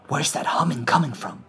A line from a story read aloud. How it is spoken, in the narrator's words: whispered